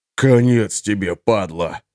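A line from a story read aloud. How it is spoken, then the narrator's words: Resentful hiss. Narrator (Russian): прошипел обиженный Алеша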